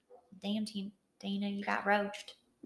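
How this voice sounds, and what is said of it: Put-on Southern American accent. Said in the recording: “I think it would be funnier with a southern accent.”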